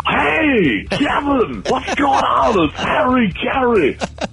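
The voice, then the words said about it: Harry Caray impression. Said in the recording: “famed Chicago Cubs broadcaster Harry Carey”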